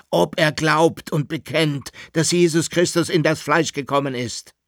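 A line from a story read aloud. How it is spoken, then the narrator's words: Very loud shout. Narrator (German): rief der Kaiser jetzt mit überlauter Stimme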